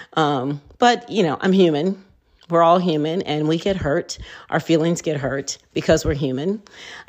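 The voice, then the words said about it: Teary, emotional voice. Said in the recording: “as I'm talking, I'm getting a little teary-eyed.”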